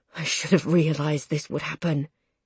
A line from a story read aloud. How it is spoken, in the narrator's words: Dad murmurs, his voice as shaky as I feel